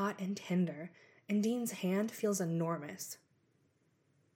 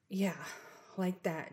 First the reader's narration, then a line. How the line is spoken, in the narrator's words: Dean mutters